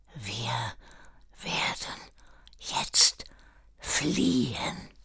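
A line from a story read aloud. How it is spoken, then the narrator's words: Whisper. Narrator (German): lächelte seine trüben Gedanken fort und flüsterte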